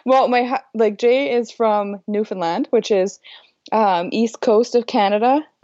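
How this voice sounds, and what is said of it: Accent that sounds European. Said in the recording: “You don't sound Canadian to me ... from your voice ... Why am I confusing your accent with European? ... like a Russian mail order bride”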